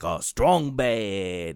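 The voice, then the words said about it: Poor imitation of a cartoon voice. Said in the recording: “he would often do like a Homestar Runner voice ... my terrible impression.”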